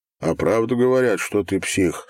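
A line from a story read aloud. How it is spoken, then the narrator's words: Plain. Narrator (Russian): спросил Ирус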